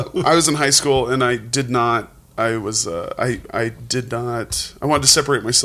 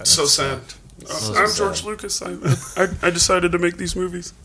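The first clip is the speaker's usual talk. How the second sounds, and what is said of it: Imitates another person's voice. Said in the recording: “Dead on. ... Spot on. I was, Lucas impersonation.”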